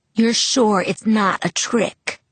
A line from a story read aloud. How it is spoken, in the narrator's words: He asked in a slow, heavy voice